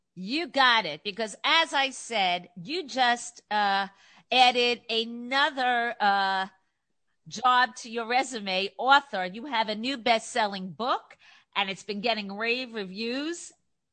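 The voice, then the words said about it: New York accent. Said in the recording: “as you can tell from my accent, I'm from New York”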